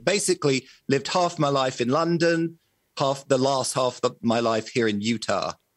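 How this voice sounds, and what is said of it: Mixed British and American accent. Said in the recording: “we can't necessarily tell by your accent ... it's kind of a hybrid between British accent and an American accent.”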